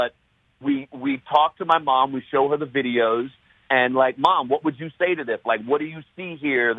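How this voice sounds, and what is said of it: Usual voice. Nothing is said of it.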